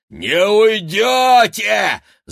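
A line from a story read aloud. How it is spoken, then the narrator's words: Yelling. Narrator (Russian): завопила Рогнеда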